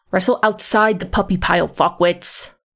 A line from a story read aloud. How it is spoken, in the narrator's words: Lambert snarls